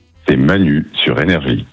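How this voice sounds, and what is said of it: Deep movie-trailer voice-over voice. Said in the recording (French): “Vous aimez bien la grosse voix? ... Il fait voix off un peu. Je vois bien en générique de film.”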